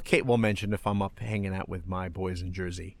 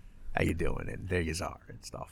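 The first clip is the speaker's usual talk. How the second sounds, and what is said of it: Put-on South Jersey accent. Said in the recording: “it's not a New York accent, but it's, you know ... Oh, you get a little Jersey ... South Jersey”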